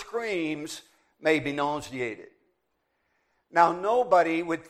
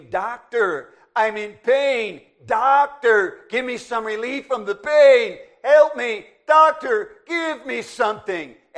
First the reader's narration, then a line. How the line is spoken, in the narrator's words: kept hearing her scream